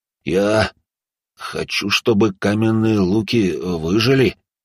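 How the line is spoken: Uncertain answer. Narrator (Russian): ответил он неуверенно

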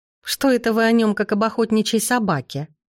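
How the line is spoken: Grandmother's snort. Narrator (Russian): хмыкнула бабуля

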